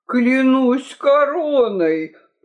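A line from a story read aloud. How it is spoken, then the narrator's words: Groaning. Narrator (Russian): простонал Толстопуз седьмой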